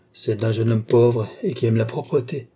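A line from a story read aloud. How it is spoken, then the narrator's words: Cold. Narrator (French): dit froidement Balsamo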